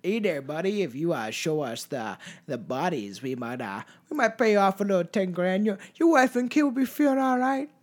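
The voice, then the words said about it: Weak attempt at Canadian accent. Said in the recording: “I can't do a Canadian accent, so don't ever ask me to. It'll be more of a place in the States”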